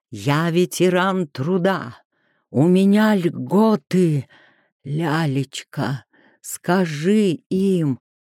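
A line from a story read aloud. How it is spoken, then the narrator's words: Hoarse wheeze. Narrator (Russian): Аркадий Юрьевич что-то прохрипел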